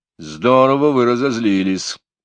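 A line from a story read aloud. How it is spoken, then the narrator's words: Sighed. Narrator (Russian): вздохнул Мелифаро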